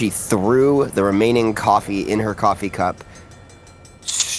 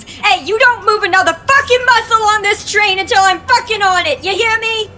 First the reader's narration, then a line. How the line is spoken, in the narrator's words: In a ridiculous attempt to make herself heard, she screamed at the top of her lungs